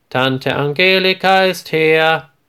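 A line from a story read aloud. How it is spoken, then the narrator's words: Loud call. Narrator (German): ruft Marie laut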